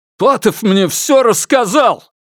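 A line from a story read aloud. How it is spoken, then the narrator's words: Furious shout. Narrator (Russian): выкрикнул в ярости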